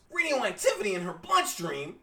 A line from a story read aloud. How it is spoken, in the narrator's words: Pete shouts